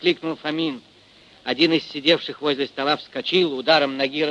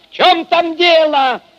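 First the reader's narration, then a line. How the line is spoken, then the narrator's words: Shout into darkness. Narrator (Russian): крикнул он в темноту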